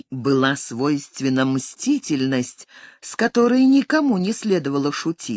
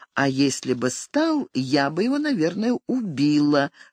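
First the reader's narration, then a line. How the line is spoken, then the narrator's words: Calm thought. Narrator (Russian): спокойно подумала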